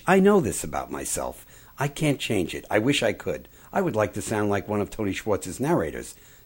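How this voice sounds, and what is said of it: New York accent, fast speech. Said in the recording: “I am sounding right now like a New Yorker, like I'm not that young... A little bit of an accent, a little bit of a fast speech”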